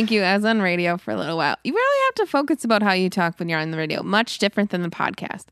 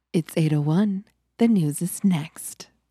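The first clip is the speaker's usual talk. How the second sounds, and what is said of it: Public radio announcer voice. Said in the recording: “would you like to hear my NPR voice? ... radio voice ... much more conscious of how you make words and how your breathing is”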